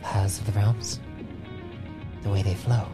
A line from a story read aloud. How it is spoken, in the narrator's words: He mutters to himself